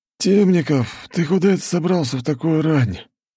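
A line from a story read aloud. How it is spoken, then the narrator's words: Sleepy question. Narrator (Russian): сонно спросил дежурный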